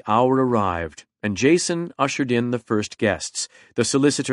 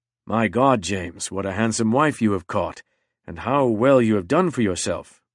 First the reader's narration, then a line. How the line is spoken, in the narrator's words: murmured Mr